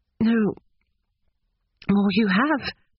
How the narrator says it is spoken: she stammered

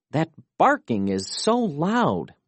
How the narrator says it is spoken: moaned Felix

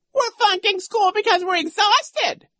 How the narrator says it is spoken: squealed

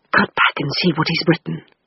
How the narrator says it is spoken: she whispered

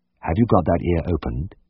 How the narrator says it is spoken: he asked quietly

